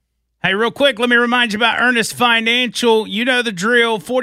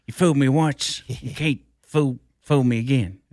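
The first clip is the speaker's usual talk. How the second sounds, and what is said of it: George Bush impression. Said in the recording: “That's me impersonating AJ impersonating Bush”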